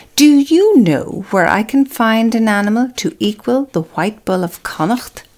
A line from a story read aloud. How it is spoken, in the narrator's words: asked